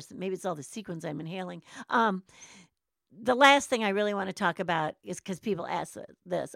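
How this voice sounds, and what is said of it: Hoarse voice. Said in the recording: “I feel like I'm getting hoarse.”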